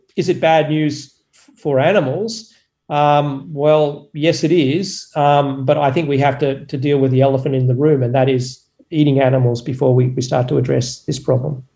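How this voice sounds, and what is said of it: Australian accent. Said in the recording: “I think I caught an Aussie accent”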